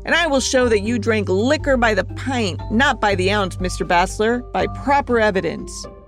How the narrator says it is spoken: Remus roared

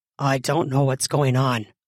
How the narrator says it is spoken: Todd growled in a slightly lower octave

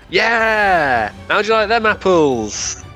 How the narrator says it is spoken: I yell

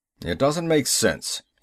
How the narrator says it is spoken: he growled

